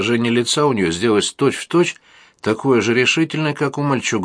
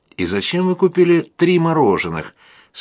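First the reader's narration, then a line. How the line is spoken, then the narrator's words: Sincerely surprised. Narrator (Russian): совершенно искренним тоном удивилась она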